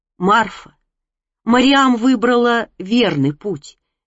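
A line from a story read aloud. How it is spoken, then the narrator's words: Softly. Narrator (Russian): мягко сказал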